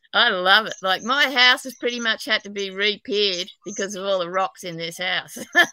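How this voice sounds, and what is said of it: Australian accent. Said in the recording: “I'm an Aussie, New South Wales, but apparently I've got a terrible accent even in Australia.”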